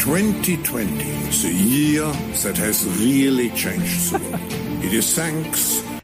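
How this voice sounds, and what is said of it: German accent, like Dr. Evil. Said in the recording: “Listen to this guy's accent. Oh, for a Dr. Evil. This guy, I mean, he's a bald German guy.”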